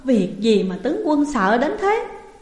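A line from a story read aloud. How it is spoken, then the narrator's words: Loud laughing speech. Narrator (Vietnamese): Chu Bột cười lớn nói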